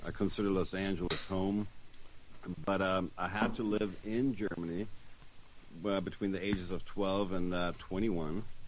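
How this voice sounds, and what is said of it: Funny German-influenced accent. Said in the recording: “if you can hear the funny accent, that's why I lived there for 10 years”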